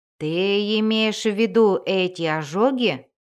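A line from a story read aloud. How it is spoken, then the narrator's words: Growling. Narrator (Russian): зарычал он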